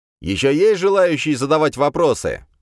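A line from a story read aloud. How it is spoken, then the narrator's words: Loud question, demon language. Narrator (Russian): громко спросил я на языке демонов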